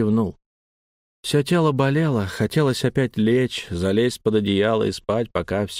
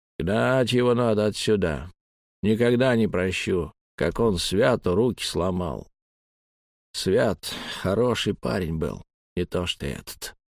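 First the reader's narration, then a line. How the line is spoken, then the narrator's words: Grumbling. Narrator (Russian): пробурчал он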